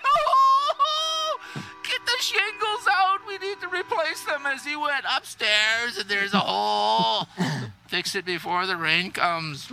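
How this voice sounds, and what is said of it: Canadian accent showing at end. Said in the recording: “it's the inflection in the voice and the changing up of the vocal tone. ... at the end, you can tell he's Canadian. The Canadian accent comes out at the end.”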